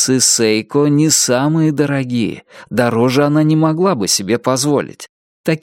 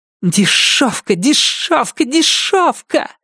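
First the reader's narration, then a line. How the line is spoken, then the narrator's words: Spiteful hiss. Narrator (Russian): злобно прошипела Салли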